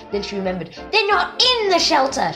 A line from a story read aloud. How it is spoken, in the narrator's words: she yelled